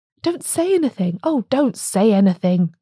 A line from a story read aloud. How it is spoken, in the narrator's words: cried the atheist cobbler, in an ecstasy of admiration for the English legal system